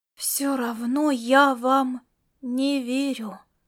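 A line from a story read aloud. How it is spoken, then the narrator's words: Whisper. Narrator (Russian): прошептала она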